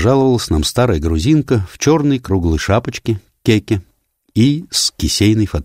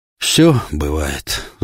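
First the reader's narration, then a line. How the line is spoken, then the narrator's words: Old man's sigh. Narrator (Russian): вздохнул старый грек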